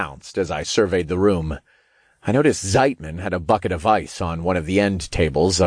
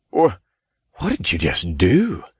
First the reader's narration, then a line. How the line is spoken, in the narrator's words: John gasped